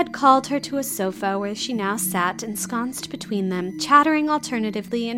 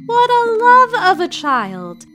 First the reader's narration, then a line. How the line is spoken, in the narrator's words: Amy and Louisa Eshton had cried out simultaneously